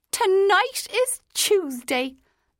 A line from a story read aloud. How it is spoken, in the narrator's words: the woman cried triumphantly